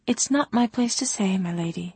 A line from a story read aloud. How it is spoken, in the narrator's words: Aloud, she said meekly